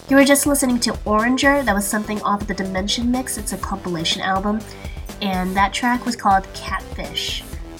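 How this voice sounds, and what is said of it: Slightly congested, stuffy voice. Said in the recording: “I have a little bit of a cold”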